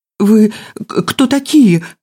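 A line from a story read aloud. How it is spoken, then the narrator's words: Breathless wheeze. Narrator (Russian): прохрипел он, пытаясь отдышаться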